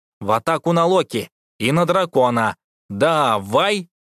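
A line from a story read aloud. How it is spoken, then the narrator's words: Loud command. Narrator (Russian): громко приказал Тобиас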